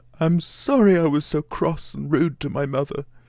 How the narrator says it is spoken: he sobbed out

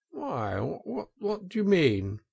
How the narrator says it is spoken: asked the Toad nervously

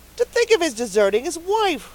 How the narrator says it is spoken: said indignantly

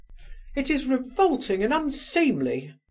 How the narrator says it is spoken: cried Hippolyte, jumping up in a fury

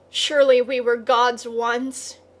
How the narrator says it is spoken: he cried

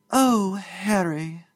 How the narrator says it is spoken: Clara exclaim

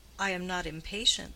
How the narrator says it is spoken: said Deronda

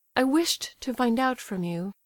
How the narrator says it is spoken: she said firmly

